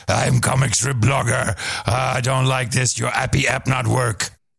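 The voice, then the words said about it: Imitates another person's voice. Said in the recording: “impersonation of comic strip blogger and ... reads of comic strip blogger”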